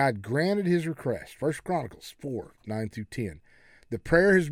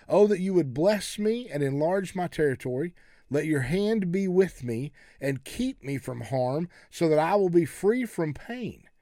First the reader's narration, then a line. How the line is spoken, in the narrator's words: Jabez cried out to God, the God of Israel